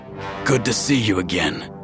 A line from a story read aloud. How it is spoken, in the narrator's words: he rasped